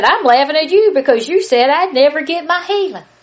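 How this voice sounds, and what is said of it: Put-on Southern American accent. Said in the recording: “You like that little southern accent I put on there?”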